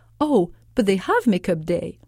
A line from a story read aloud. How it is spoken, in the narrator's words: I exclaimed